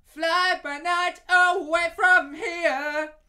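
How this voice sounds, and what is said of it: Singing impression of a crazy voice. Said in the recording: “doing my best impression of, what's his name? Giddy something. He's got a crazy voice, man.”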